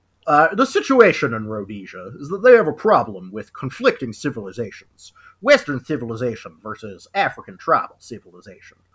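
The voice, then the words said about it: Silly put-on reading voice. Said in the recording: “I'm going to read it in a silly voice.”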